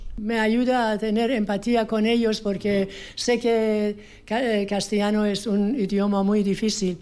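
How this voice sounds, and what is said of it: Persian accent in Spanish. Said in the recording (Spanish): “Hablas muy bien castellano, pero ¿ese acento de dónde es? ... mi acento es de Persia.”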